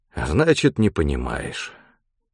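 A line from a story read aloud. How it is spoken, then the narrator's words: Sigh. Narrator (Russian): вздохнул Антип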